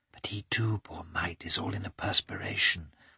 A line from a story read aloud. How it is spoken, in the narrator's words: whispered Kitty